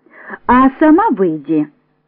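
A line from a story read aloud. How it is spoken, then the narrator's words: Laughing. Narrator (Russian): Маша засмеялась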